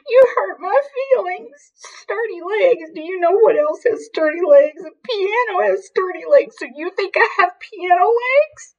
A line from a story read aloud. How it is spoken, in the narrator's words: she would wail